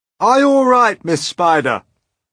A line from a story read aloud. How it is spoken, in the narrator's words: shouted the old green grasshopper